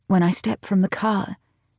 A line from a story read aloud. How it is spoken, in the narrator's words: she sighs her relief so hard